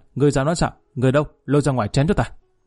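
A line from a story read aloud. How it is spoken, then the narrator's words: Furious shout. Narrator (Vietnamese): Lý Kỳ vẫn nộ quát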